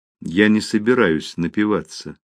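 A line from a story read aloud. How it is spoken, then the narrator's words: Calm reply. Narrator (Russian): спокойно ответила Мэри Бет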